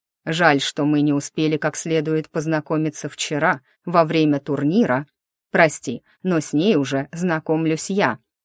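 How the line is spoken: Growling from behind. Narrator (Russian): раздалось рычание из-за спины Ханта

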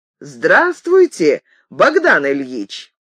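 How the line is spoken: Shouting. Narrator (Russian): закричал

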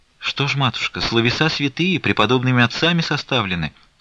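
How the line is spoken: Timid woman precentor. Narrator (Russian): робко промолвила уставщица

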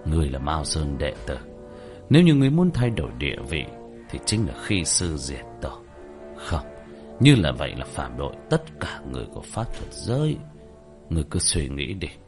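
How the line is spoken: Sighing speech. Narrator (Vietnamese): Vân Xuân Sinh thở dài đối với Diệp Thiếu Dương mà nói

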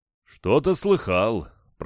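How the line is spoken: Booming drone. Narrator (Russian): прогудел Аронов

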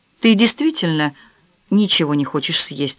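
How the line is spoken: Plain question. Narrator (Russian): спросила она

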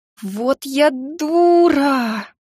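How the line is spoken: Breathless exhale. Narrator (Russian): выдохнула

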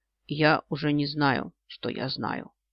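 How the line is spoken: Mutter. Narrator (Russian): бормочет он

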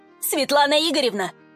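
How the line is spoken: Shouted. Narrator (Russian): крикнул

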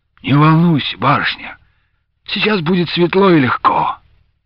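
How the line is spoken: Hot whisper in ear. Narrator (Russian): Дениска жарким голосом прошептал ей в ухо

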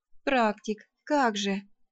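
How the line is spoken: Annoyed drawl. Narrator (Russian): раздосадованно протянула я

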